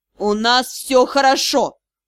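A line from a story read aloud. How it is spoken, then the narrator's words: Growling. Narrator (Russian): прорычал магистр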